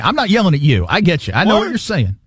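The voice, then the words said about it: Yelling, loud raised voice. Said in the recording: “Why are you yelling”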